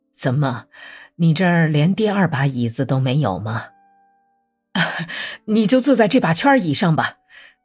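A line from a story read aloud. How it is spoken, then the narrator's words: Laughing, low voice. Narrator (Chinese): 史托克曼笑着，用低音说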